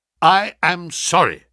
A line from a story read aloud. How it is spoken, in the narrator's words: said I